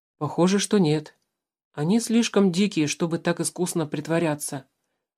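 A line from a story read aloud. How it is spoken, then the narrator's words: Quiet reply. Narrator (Russian): так же тихо ответил Алексей Александрович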